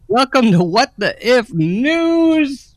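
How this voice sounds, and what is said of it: Shouting, loud announcement. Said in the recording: “I'm shouting because it's new.”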